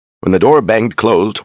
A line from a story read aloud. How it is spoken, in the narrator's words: Warren chuckled